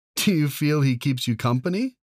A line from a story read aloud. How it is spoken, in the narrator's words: She laughed